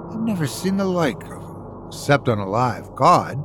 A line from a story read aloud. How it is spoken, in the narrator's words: said Captain Gannington in an extremely puzzled voice